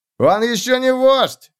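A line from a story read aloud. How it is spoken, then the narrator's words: Shouting. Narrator (Russian): закричал Бекел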